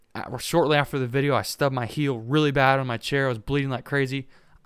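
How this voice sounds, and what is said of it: Hoarse, strained voice. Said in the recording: “I've lost my voice from that pick.”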